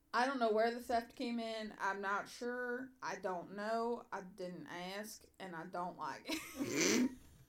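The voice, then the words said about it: Southern American accent. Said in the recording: “I can just hear the southern accent coming out more and more and more.”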